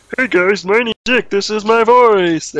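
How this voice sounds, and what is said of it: Imitates a cartoon character's voice. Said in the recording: “Do Mickey's voice. ... I just did his voice, it's that simple. That's what he sounds like in the cartoons”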